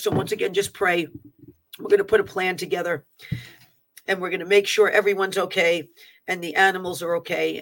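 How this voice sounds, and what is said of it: Strained, struggling voice. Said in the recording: “my voice is even like struggling a little bit from the air quality”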